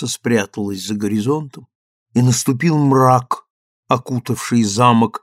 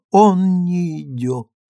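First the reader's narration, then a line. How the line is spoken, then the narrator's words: Grief-stricken muttering. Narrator (Russian): Изольда словно терзаемая неизбывным горем, и снова бормотала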